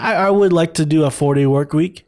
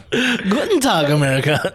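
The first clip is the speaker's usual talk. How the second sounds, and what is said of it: Mock German accent. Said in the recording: “that's your German? ... let's hear your German.”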